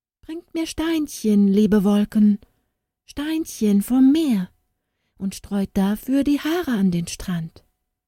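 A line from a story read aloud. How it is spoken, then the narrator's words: Pleading request. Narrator (German): bat sie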